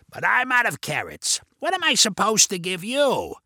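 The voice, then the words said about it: Raspy character voice. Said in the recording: “in the raspy voice ... his Carrot Man voice”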